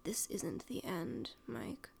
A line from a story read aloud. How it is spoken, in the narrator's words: Vecna whispers, his voice low and gravelly